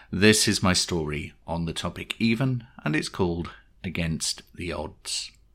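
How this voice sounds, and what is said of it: Congested voice from a cold. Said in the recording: “I've got a bit of a cold”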